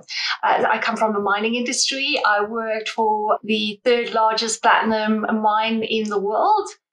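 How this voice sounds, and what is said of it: South African accent. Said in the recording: “as you can hear from the accent, I'm South African”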